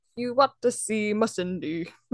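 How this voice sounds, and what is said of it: Good impression of a male choir. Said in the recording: “That was a good impersonation of... The male choir.”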